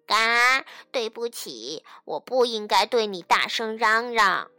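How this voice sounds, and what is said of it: Soft, quiet duck character voice. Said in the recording (Chinese): “鸭子小声地向松鼠道歉”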